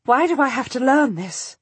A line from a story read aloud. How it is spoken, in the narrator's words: I ask breathlessly